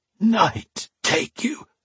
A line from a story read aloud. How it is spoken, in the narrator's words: Alesh rasped